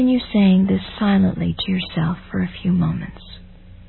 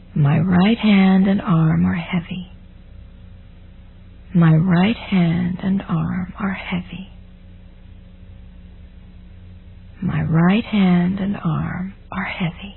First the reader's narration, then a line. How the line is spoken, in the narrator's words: breathing evenly, repeat to yourself